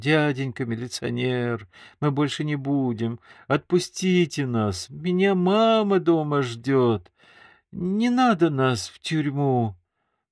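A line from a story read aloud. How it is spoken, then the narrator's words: Tearful whining. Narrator (Russian): он заскулил плаксивым голосом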